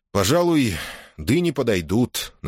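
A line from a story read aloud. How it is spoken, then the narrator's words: Reluctantly forced out. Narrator (Russian): наконец выдавил из себя Джил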